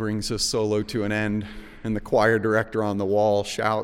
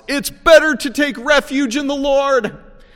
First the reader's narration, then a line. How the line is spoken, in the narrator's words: The director shouts